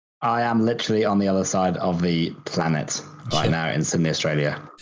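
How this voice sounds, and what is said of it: British accent. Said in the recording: “you don't sound Australian. You sound quintessentially British.”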